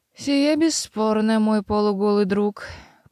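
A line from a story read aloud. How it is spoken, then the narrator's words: Sleepy mumbling. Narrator (Russian): пробурчала Мэйр, сонно щуря глаза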